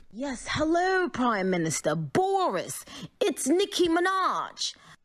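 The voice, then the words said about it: Poor put-on British accent. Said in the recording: “that attempt of an accent is a hate crime ... Is she not British?”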